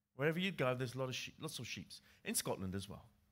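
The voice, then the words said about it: English accent. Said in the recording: “my English accent, I grew up in England”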